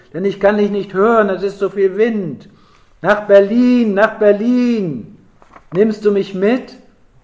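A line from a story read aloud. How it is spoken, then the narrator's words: Shout. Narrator (German): schrie Gertrud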